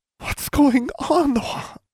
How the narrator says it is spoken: her mother sobbed

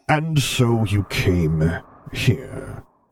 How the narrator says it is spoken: Vader rumbled softly, sounding like he was very far away for a moment

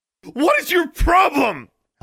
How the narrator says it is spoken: Alexandra screamed

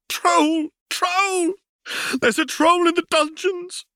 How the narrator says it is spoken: a gaunt, turbaned figure ran frantically into the Great Hall, flailing his arms, screaming

